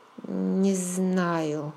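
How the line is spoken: Forced out, hesitant. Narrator (Russian): выдавила я наконец

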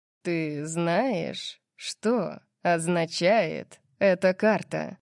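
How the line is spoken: Slow, toying question. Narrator (Russian): спросил он медленно, как будто играл со своей едой

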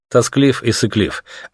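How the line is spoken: Plain. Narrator (Russian): ответил ему Артем

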